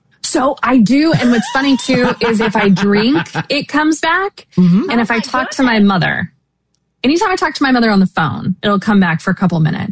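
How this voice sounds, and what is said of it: Generic Midwestern American accent. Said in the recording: “You have a very generic American accent. ... Very generic. ... Midwestern.”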